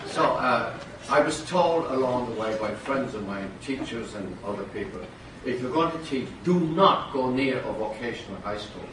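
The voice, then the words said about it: Irish brogue accent. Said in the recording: “your foreignism, your accent, you know, your brogue ... I'm Irish ... sound like Barry Fitzgerald or Maureen O'Hara”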